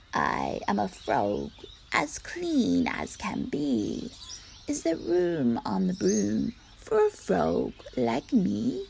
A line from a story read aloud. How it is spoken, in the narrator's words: said with a croak